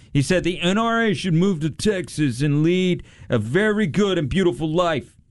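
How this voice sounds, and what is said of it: Imitates another person's voice. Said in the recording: “That was my Trump impression.”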